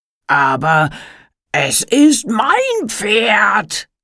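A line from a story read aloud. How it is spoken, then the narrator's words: Roaring. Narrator (German): brüllte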